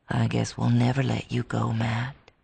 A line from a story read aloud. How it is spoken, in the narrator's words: he whispered